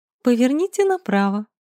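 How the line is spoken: Languid cooing. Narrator (Russian): Селезнёва томно проворковала

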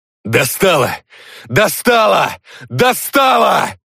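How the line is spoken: Wailing yell. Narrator (Russian): вопил Юра

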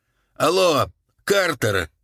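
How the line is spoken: Shouting again. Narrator (Russian): крикнул он снова

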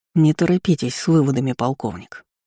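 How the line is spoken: Through gritted teeth. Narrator (Russian): Горский процедил сквозь зубы

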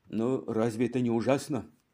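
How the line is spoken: Sighed. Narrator (Russian): вздохнул хозяин кафе

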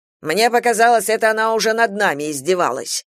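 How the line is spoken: Rough. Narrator (Russian): грубо сказал Шушенков

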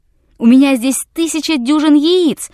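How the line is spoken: Shouted reply. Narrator (Russian): закричал ему в ответ Расмунсен

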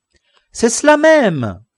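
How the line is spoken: Exclaiming. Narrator (French): s'écria Sancho

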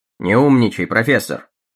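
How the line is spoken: Cold reply. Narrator (Russian): холодно ответил мистер Томпсон

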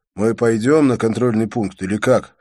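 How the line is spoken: Plain. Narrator (Russian): спросил я

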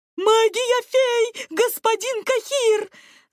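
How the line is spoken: Excited yelling. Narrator (Russian): завопил он

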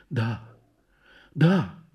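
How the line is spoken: Absent-minded whisper. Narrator (Russian): шепнула она о чем-то своем

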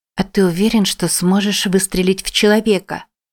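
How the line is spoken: Quiet question. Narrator (Russian): тихо спросила Джен

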